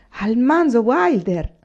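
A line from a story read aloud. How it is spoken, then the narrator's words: Two exclaiming together. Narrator (Italian): loro due insieme esclamarono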